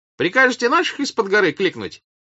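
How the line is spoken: Shouted. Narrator (Russian): крикнул он

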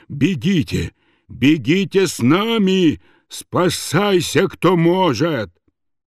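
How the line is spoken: Loud breathless shout. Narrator (Russian): Рослый, серый, грузный юнкер, зычно задыхаясь, кричал

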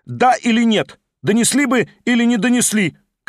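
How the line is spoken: Shouting. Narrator (Russian): крикнул Верховенский

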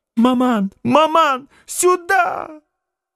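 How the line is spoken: Shrill shout. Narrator (Russian): Пронзительным голосом закричала Наденька

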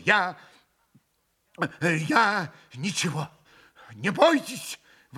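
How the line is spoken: Exclaiming. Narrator (Russian): воскликнул он

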